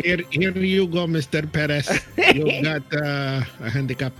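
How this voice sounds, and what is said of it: Put-on accent. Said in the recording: “you need to do it with the accent”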